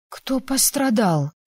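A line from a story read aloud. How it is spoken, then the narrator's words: Hoarse question. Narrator (Russian): хрипло спросила я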